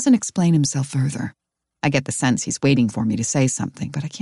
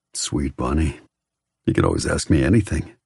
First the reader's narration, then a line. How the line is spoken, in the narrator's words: He murmurs